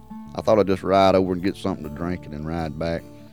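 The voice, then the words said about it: Mississippi Southern accent. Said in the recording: “the wonderful way you talk, that great Mississippi accent”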